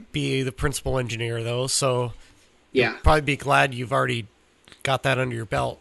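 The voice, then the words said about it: Froggy, hoarse voice. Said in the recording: “my voice is froggy”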